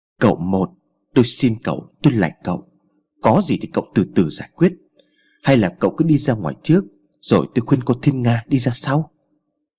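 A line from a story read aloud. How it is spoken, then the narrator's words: Frightened, trembling pleading. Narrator (Vietnamese): Bà Mỹ Lệ sợ lắm, nhưng trong tình thế này bà ta buộc phải cố giản xếp cho yên để còn tiếp khách, nên run rẩy nói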